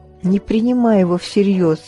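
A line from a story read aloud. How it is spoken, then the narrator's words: Mother, plain. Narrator (Russian): сказала мама Мэри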